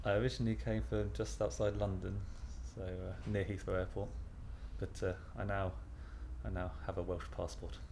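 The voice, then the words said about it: English accent, not Welsh. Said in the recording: “I'm not Welsh, as you probably can hear from the accent”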